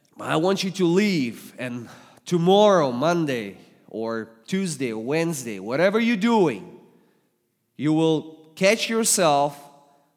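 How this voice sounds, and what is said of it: Russian accent. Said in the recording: “English is not my native language... I'm from Russia, so God speaks to you with Russian accent today”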